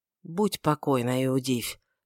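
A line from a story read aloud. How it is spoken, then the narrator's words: Evasive mumble. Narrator (Russian): пробормотал уклончиво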